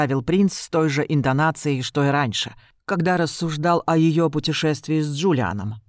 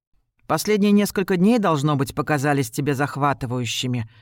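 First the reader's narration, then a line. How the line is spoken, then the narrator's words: Plain. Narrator (Russian): сказала она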